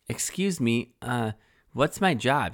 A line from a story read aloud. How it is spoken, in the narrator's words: she asked